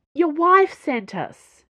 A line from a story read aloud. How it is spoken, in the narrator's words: Dana yelled up after him